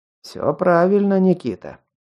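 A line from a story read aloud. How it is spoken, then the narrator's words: Calm. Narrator (Russian): спокойно ответил Скел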